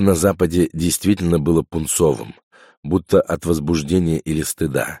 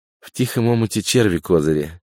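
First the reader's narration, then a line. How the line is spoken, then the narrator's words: Giggling. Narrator (Russian): хихикнула Няша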